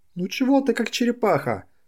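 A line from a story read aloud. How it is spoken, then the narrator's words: Woman's shout. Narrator (Russian): закричала она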